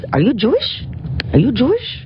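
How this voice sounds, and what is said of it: Fun put-on accent. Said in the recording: “it was a fun accent”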